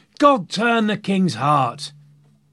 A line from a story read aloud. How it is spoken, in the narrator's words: others were shouting